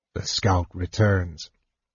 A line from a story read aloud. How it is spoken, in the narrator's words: he said dryly